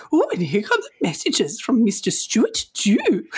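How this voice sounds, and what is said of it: Monty Python-style English accent. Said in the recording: “in a Monty Python voice or like an English accent”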